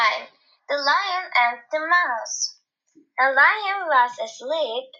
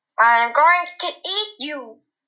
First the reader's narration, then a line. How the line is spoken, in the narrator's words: roared